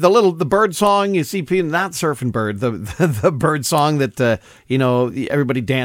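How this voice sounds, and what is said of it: Usual voice. Nothing is said of it.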